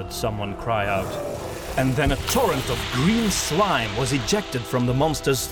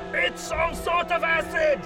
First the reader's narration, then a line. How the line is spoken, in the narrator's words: a voice scream